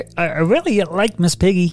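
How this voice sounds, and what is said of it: Kermit the Frog voice impression. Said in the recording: “Impersonation challenge... Kermit the Frog! ... It's correct!”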